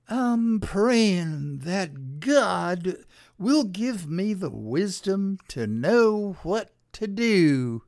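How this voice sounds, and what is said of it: Preachy pastor-style voice. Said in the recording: “I'm going to lapse into my pastor accent.”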